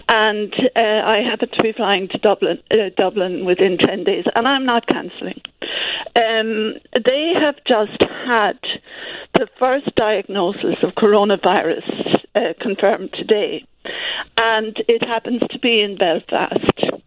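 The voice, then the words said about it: Noticeable accent. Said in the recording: “excuse the accent and excuse the speech”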